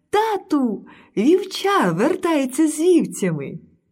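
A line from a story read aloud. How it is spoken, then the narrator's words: Young girl's joyful cry. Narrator (Ukrainian): найменша донька короля радісно крикнула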